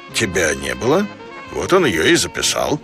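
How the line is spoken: Calm. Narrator (Russian): Говорухин спокойно ответил

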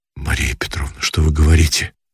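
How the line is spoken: Confused muttering. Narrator (Russian): В замешательстве забормотал он

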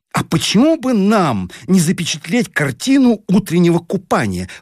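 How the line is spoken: Exclaimed. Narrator (Russian): воскликнула Таня

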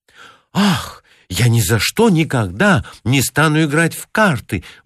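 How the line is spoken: Exclamation. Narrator (Russian): воскликнула Лили

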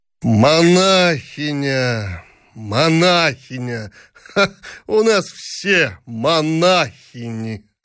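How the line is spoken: Hoarse laughing. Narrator (Russian): Сипловато смеялся Павел Петрович

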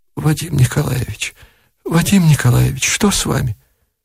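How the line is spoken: Near whisper, repeating. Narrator (Russian): повторяла почти шепотом

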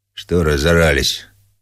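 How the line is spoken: Quiet voice. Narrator (Russian): тихо сказала фигура

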